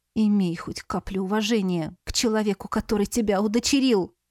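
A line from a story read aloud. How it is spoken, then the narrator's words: Through gritted teeth. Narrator (Russian): стиснув кулаки, процедила я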